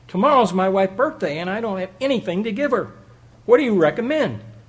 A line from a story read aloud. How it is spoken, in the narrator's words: a man came running up to her frantically and said